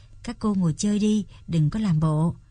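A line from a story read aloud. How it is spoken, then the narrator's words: Smiling. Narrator (Vietnamese): Anh mỉm cười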